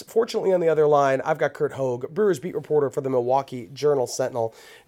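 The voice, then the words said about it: Scratchy, sick-sounding voice. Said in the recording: “Oh man, my voice is not what it normally sounds like ... been under the weather, way under the weather for a week ... So forgive the scratchiness”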